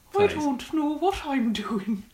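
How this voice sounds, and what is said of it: Poor put-on Irish accent. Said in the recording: “I have to say it in an Irish accent ... That's terrible ... Your painting is better than your Irish accent”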